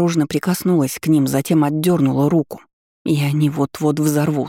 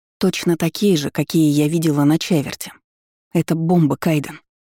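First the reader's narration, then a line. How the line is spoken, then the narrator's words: Whisper. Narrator (Russian): прошептала я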